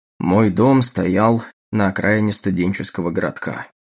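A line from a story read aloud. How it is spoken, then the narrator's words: Sighing, continuing. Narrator (Russian): продолжал, вздохнув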